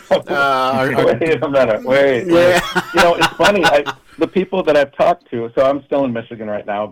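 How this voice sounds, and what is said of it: Northern US accent. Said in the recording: “how many comments I've had about my accent. You must be from the north.”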